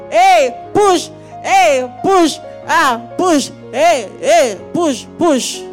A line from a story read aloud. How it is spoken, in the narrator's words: And I could just hear people shouting